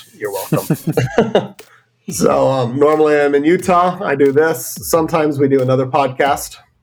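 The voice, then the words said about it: Deep, congested sick-sounding voice. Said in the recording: “getting over a chest cold, so I sound awesome ... my deep, sexy voice”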